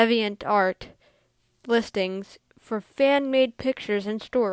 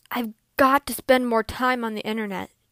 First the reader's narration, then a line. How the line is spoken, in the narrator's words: she muttered to herself